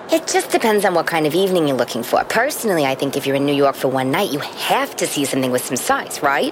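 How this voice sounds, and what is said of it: Staten Island New York accent. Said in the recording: “I love your accent. ... You can take the girl out of Staten Island.”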